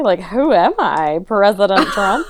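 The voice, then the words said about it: Imitates another person's voice. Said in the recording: “that was an impression.”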